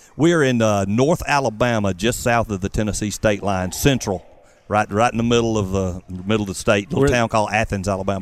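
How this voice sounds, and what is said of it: Southern American accent. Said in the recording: “I love your southern accent like mine.”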